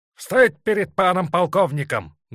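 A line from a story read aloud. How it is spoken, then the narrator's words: Loud barked command. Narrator (Russian): гаркнул Есаул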